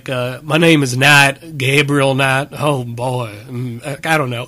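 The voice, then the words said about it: Imitated voice with unconvincing New Orleans accent. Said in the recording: “That's a bad imitation of Tim Curry... it's a good impersonation of Tim Curry speaking with a New Orleans accent”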